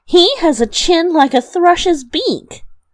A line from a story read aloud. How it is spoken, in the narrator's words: cried and laughed